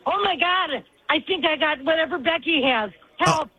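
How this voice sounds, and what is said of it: Yelling. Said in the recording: “I'm yelling.”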